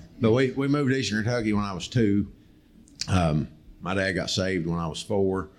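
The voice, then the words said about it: Noticeable regional accent. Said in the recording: “believe it or not, from my accent, I'm actually from Ohio.”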